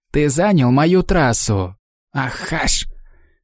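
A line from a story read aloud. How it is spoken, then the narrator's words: Angry hiss, foreign tongue. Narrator (Russian): Не желая стесняться в выражениях, Алиша сердито прошипела на языке ясов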